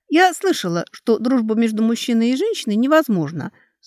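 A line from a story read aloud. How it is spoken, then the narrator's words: Calm. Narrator (Russian): снова спокойно сказала Алекса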